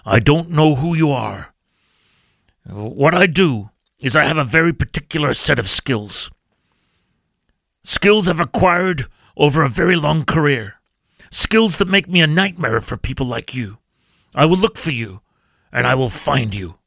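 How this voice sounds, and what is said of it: Bad Liam Neeson impression. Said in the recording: “I'll put on the Liam Neeson accent ... that's a pretty bad Liam Neeson accent”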